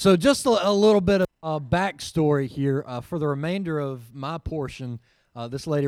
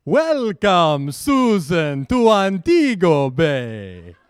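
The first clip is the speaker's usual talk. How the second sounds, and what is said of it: Put-on Jamaican accent. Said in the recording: “I picked up on the Jamaican accent better than anyone else ... it does resemble Jack Dracula a little bit.”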